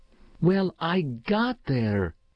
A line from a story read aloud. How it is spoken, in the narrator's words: he announced fiercely, his blue eyes still flaring